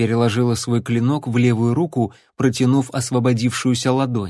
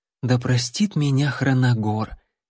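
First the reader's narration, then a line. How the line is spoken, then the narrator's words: Barely audible whisper. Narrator (Russian): еле слышно прошептала Лайла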